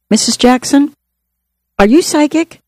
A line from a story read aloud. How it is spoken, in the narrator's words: I heard someone gasp